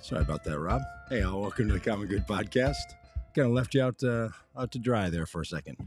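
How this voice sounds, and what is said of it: Hoarse, strained voice. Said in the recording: “also a day when I lost my voice, apparently ... I'm literally clearing my throat.”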